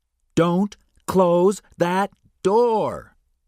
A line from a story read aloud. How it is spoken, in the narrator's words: O'Connell shouted at Benny